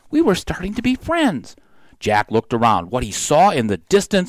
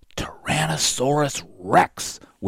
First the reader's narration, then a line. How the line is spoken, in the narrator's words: whispered Jack